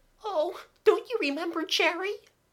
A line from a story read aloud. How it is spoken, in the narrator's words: Kathleen cried